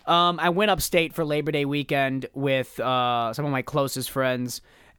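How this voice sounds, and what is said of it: Hoarse, worn-out voice. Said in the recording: “my voice is completely shot... Every single time I'm trying to do a voice, my it's like falling apart.”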